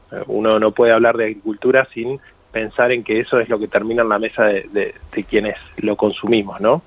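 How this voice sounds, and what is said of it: Argentine Spanish accent. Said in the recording (Spanish): “yo soy argentino, se me nota en el acento.”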